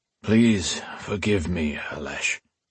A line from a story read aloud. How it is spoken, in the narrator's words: he said in a weary voice